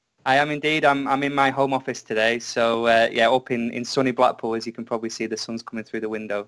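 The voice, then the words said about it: British accent. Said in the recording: “when he's in the UK, he's got a British accent”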